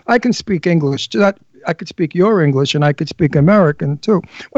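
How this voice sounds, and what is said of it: New York accent. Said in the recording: “My New York accent.”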